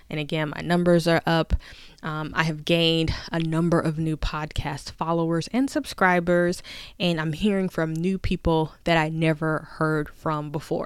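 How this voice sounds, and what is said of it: Happy, upbeat voice. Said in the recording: “I sound so happy”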